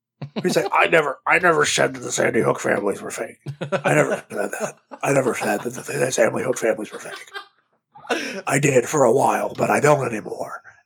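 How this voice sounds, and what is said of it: Imitates another person's voice. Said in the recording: “I can do a really good Alex Jones impression ... It's almost Richard Nixon, but it's Alex Jones.”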